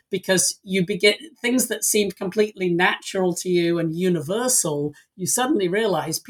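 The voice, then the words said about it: English accent. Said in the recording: “as listeners may be able to hear from my voice, I, I don't live in the country I was born in. I, I, I came to the US from, from England”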